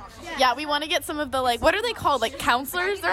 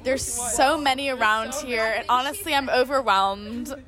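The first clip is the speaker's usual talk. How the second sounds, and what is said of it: Sarcastic delivery. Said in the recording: “That was sarcasm.”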